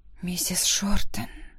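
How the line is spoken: Quiet whisper. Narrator (Russian): тихо прошептала я

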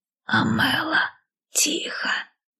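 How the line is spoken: Whisper. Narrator (Russian): шепнула нянечка

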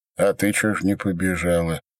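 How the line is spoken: Lazy question. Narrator (Russian): лениво спросил Степан

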